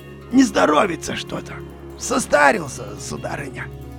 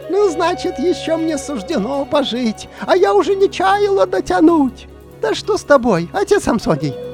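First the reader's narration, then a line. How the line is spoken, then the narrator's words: Delighted exclamation, old woman. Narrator (Russian): очарованная старуха воскликнула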